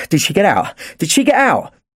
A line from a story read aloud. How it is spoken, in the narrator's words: Owen asked frantically